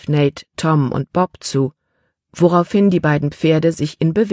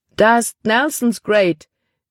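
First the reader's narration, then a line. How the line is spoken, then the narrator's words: Exclaimed. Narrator (German): rief er aus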